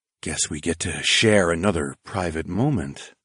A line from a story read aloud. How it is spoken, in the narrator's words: I whispered to the blonde